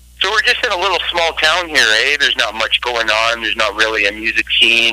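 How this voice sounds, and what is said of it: Canadian accent. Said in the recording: “I thought I recognized the accent, man. ... it's got to be Canada.”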